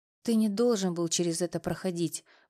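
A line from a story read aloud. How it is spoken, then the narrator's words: Muffled whisper into shoulder. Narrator (Russian): прошептала она мне в плечо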